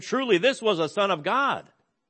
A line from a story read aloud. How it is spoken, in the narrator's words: this Roman soldier exclaimed